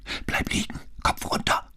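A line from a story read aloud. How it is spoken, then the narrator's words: Hissed in ear. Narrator (German): zischte er Brunetti ins Ohr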